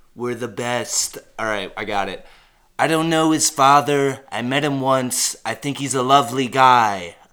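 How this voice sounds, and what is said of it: Imitates another person's voice. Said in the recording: “Is that your Trump impression? ... You do a good Trump impression.”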